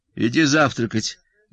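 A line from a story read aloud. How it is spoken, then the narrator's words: Wife, dry tone. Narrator (Russian): сухо, сказала жена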